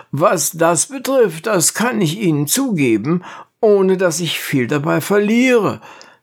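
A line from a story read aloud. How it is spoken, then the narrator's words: Called out. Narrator (German): rief Hyperbolus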